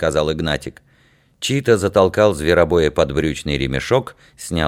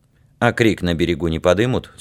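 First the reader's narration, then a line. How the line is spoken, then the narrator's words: Plain. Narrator (Russian): спросил Яр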